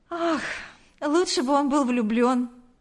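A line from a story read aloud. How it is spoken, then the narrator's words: Secretary's sigh. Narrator (Russian): вздохнула секретарша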